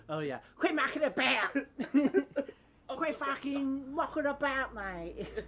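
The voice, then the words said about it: Deliberately bad British accent. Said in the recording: “lots of bad British accents ... We were purposefully being terrible.”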